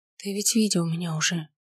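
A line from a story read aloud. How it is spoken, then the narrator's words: Whispered. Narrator (Russian): прошептала я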